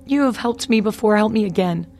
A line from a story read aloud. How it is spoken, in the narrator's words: cried the queen mother